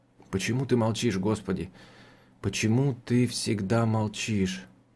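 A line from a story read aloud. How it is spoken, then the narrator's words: Whispered. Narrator (Russian): прошептал он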